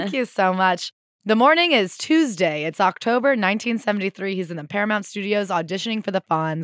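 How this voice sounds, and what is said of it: Usual voice. Nothing is said of it.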